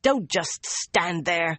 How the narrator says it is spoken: Nynaeve snapped

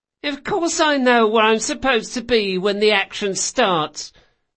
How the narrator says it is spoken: Bug whined

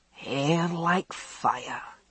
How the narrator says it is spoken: Alec said dreamily, enjoying the warmth of the oil on his back

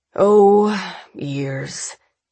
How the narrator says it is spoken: Davidson sighs, matching her forced humor

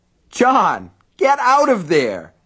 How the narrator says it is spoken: Alan yelled

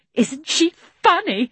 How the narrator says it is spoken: said several of the animals

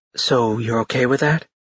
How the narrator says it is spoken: she whispered to Ash so the others wouldn't overhear

